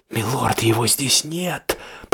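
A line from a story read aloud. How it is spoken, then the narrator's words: Ominous whisper. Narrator (Russian): зловещий шепот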